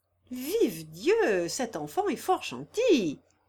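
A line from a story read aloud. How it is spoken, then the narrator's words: Exclaiming. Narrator (French): s'écria le baron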